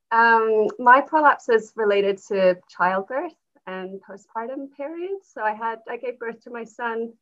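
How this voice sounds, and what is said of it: Mixed Canadian-sounding accent. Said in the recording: “Canadian accent, but a bit of a mashup.”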